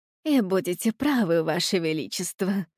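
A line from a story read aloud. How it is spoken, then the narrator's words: Sighing. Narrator (Russian): Герцогиня вздохнула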